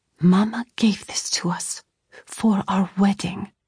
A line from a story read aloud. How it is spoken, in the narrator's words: I whispered